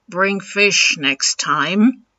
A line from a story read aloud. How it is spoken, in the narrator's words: grunting